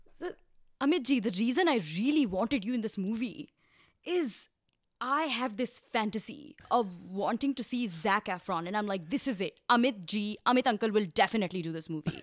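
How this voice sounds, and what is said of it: Imitates another person's voice. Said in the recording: “Can you do his voice? You do it really well. ... She does a good Karan Johar impression.”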